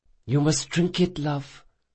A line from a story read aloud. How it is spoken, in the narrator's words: whispered Dracasha